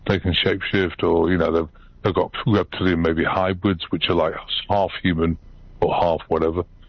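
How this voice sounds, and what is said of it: British accent. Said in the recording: “I've still got a British accent.”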